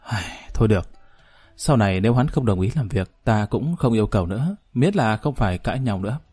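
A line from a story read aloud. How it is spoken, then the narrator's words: Weary quiet sigh. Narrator (Vietnamese): Nàng cũng cảm thấy có chút mệt mỏi, âm thầm thở dài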